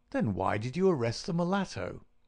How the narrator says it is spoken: Baines chuckled

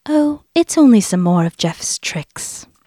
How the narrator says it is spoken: Vari told Dennis calmly

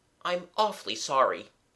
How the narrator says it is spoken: he urged eagerly

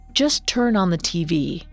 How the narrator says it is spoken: said Bryant

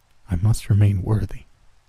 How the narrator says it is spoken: she murmured back

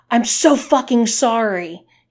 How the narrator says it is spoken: he yelled back

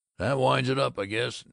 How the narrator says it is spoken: He grunted

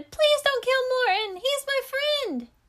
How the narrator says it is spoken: Niels shouted

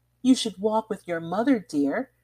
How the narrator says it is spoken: cried the lady from Geneva, losing patience

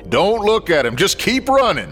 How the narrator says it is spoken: Scooter barked

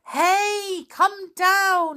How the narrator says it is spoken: yelled the elves

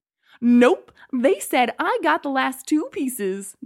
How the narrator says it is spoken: the man laughed triumphantly

